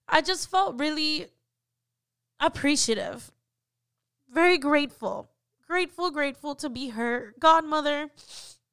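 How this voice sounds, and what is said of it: Emotional, choked-up voice. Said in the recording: “I don't know why I'm getting emotional, but I'm sorry. Bear with me.”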